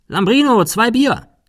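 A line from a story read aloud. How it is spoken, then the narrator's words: Calling inward. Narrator (German): Cecil rief nach innen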